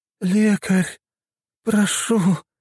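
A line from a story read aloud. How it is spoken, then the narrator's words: Moaning plea. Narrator (Russian): простонала покрытая гнойниками женщина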